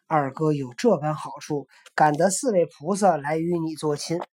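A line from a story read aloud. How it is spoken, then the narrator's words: Laughing. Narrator (Chinese): 沙僧笑道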